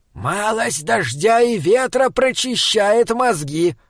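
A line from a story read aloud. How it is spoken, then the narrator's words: Shouted. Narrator (Russian): крикнул Таузер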